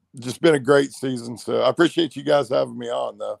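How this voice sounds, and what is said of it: Worn-out, strained voice. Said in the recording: “My voice is about shot after the day's show.”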